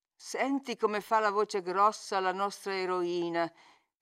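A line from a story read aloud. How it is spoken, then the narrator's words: Plain. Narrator (Italian): rispose Heathcliff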